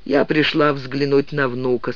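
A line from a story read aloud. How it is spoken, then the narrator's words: Calm. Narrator (Russian): спокойно сказала она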